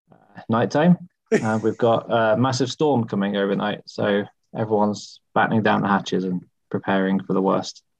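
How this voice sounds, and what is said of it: English accent. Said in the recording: “bringing that English accent to the podcast”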